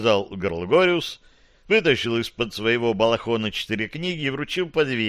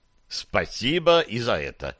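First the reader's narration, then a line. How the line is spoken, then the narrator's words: Plain. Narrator (Russian): сказал Гарри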